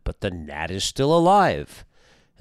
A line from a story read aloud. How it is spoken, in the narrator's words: The emperor exclaimed with disappointment